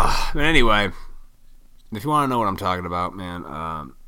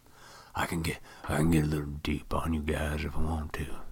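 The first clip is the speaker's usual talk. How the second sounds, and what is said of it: Put-on deep voice. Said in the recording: “That wasn't my best deep voice.”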